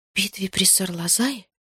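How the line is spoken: Whispered. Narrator (Russian): прошептала я

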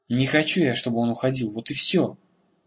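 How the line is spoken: Helpless mutter. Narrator (Russian): Беспомощно пробормотал он

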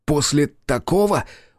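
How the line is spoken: Exclaiming. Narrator (Russian): воскликнул он

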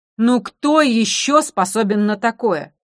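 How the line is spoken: Exclaimed. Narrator (Russian): воскликнул он

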